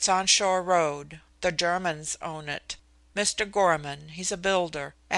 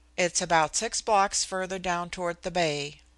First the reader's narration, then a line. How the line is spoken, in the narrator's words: she said, still in the same colorless tone she had used from the first